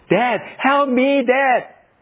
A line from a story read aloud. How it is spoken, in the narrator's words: almost drowned as I tried to get out from the deep water, so I shouted